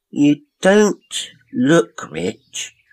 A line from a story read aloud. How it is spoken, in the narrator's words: they said slowly, and in as polite a voice as possible